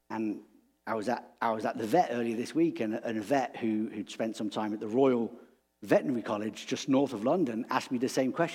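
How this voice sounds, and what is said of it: English accent. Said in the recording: “your accent, where is it from? ... I'm from England ... I can't place your accent”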